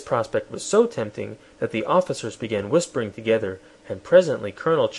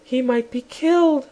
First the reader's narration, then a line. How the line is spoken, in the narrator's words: said Anne, looking tenderly at Shaggy